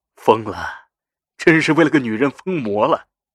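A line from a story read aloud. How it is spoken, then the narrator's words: Sighing. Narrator (Chinese): 马君谦摇头叹气道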